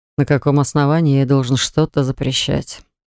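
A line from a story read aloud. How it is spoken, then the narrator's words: Sad wry smirk. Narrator (Russian): грустно усмехнулся он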